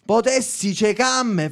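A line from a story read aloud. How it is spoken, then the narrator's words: Furious screaming. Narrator (Italian): fece, urlando, del tutto infuriata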